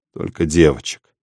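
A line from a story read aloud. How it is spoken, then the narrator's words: Tired. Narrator (Russian): сказал Иваныч устало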